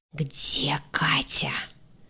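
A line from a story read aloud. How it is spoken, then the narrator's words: Hissing angry whisper. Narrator (Russian): выдал свистящим злым шепотом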